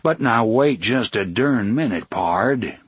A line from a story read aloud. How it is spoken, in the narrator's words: Blaine said in his John Wayne voice